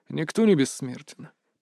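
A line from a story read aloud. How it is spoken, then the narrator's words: Quiet reply. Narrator (Russian): тихо ответил Рейк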